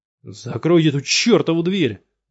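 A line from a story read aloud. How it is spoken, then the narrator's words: Yelled. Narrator (Russian): заорал он Плеоре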